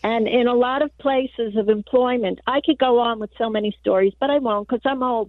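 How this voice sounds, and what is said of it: New York accent. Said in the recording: “are they telling me you're calling from New York? ... I am from New York. ... Okay, the accent.”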